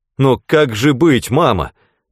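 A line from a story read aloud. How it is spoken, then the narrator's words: Exclaimed. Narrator (Russian): воскликнул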